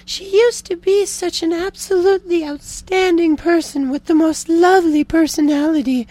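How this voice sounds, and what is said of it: Imitated woman's voice. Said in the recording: “Let me get my woman accent here.”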